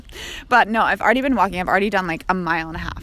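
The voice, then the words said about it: Out of breath while talking. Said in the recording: “I'm a little out of breath. Clearly, I'm a little out of shape.”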